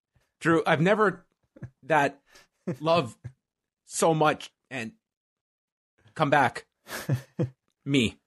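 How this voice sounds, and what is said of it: Impression of Tom Green. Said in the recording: “doing an impression of Tom Green talking via Skype”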